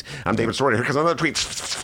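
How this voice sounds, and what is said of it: Rapid-fire imitation of another person's voice. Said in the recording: “David Sirota talks really fast ... He talks like this. ... good impression.”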